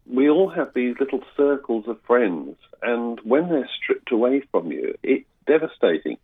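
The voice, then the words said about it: British accent. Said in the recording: “I'm a migrant, as you probably can hear from my accent. And I came from the UK.”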